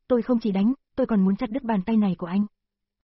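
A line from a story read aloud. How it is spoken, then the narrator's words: Angry. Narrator (Vietnamese): Lục Tư Dao tức giận nói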